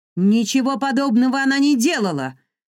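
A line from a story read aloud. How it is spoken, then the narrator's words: Loud shouting. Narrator (Russian): громко закричала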